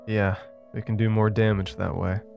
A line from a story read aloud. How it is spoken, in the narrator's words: Evan said with a chuckle